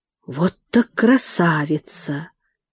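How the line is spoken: Whisper. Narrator (Russian): Он прошептал

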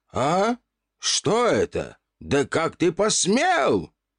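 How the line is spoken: Old man's sudden shout. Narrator (Russian): Старик вдруг закричал

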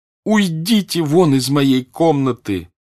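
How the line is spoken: Shouting, then sobbing. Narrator (Russian): прокричала она и зарыдала

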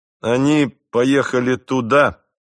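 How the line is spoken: Loud. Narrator (Russian): громко сказал я

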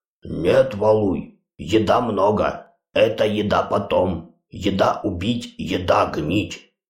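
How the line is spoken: Displeased growl. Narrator (Russian): Громила недовольно зарычал

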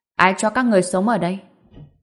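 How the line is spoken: Solemn male voice. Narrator (Vietnamese): một giọng nam vang lên từ cửa với giọng điệu rất trang nghiêm

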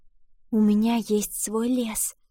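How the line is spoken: Female whisper. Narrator (Russian): прошептала она

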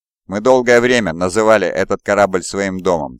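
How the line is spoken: Plain. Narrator (Russian): сказал Локин

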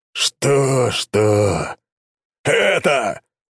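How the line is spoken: Impatient bark. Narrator (Russian): нетерпеливо гаркнул Таранов

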